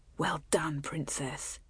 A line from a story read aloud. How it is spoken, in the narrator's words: whispered in her ear